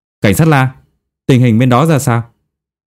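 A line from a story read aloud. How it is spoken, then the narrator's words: Loud question. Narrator (Vietnamese): lớn tiếng hỏi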